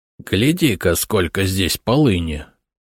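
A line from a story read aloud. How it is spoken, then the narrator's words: Approving mutter under breath. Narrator (Russian): одобрительно пробурчал эксперт себе под нос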